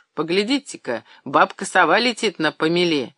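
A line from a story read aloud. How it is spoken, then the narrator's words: Loud laughter. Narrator (Russian): И громко рассмеялся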